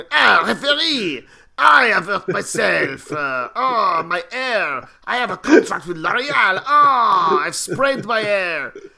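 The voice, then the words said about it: Generic put-on French accent. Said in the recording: “It was just generic French accent”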